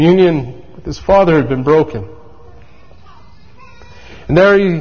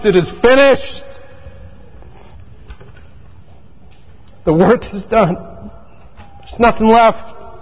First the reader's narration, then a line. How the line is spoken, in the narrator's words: He cries